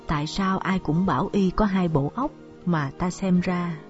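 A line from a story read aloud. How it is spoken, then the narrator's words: Sighing mutter. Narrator (Vietnamese): Thượng quan Đan Phụng ... miệng thở dài lẩm bẩm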